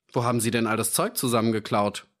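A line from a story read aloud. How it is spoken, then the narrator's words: Plain. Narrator (German): fragte der Sergeant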